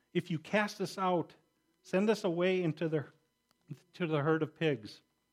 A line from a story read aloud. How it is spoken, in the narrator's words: the demons begged him, saying